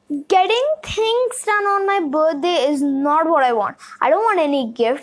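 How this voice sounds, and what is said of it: Frustrated shouting. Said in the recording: “I'm shouting right now, because I'm really, really, really frustrated”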